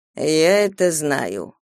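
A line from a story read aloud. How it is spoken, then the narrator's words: Purring. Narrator (Russian): промурлыкал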